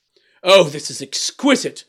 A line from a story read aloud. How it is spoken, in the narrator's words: exclaimed the king